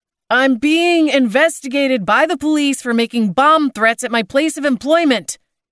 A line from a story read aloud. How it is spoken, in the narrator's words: he yelled at the buzzing phone